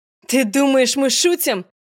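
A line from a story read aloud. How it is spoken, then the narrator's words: Shouted. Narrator (Russian): Закричал главный похититель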